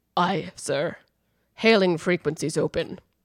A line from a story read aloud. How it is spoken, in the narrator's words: There was a noticeable pause before Worf rumbled